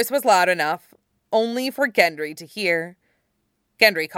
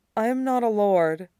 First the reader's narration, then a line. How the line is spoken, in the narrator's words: the youngest Stark said quietly